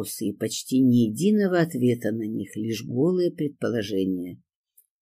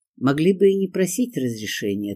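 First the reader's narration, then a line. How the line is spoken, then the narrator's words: Plain. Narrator (Russian): ответил Корольков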